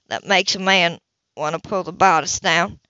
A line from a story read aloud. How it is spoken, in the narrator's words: he said gruffly